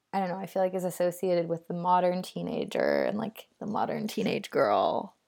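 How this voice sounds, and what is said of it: Deliberate vocal fry. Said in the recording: “I was just trying to do vocal fry ... So I was just trying to do it there. ... You just did it. ... It was successful.”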